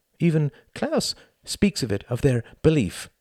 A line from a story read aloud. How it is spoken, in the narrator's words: he added hastily